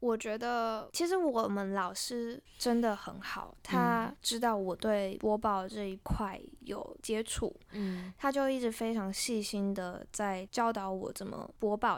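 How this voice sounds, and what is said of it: Taiwanese Mandarin accent. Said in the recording (Chinese): “台湾的口音跟大陆口音，我没有办法在短时间内完全的说适应或者是更正”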